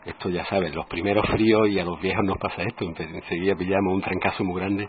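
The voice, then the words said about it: Deep, rough voice from a cold. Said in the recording (Spanish): “fíjate la voz de ultratumba que tengo”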